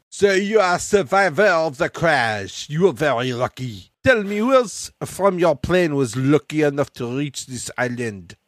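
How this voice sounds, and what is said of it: Thick put-on French accent. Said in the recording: “speaking in a thick French accent”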